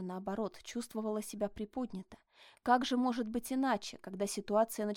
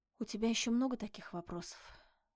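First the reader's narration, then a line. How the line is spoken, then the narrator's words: Tired question. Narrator (Russian): спросила она устало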